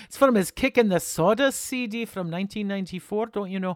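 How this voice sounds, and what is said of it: Put-on Scottish accent. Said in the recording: “So I've got to say it with a Scottish accent.”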